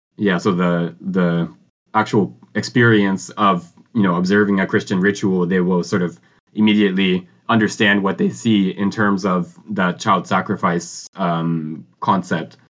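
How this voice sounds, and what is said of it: Strained, hoarse voice. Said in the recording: “I'm kind of losing my voice”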